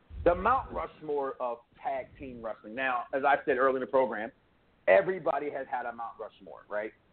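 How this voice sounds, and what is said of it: Slightly hoarse voice. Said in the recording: “my voice a little hoarse”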